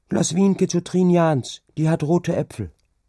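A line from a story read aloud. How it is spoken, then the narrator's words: Called out, woman. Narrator (German): rief sie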